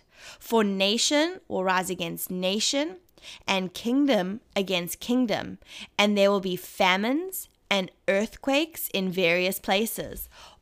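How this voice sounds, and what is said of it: Speaks with a noticeable accent. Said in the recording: “probably simply just the the accent ... purely you you like my accent”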